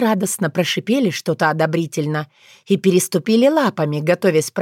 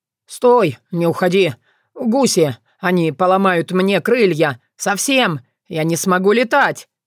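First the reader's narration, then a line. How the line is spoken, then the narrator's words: Yelling. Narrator (Russian): заорал он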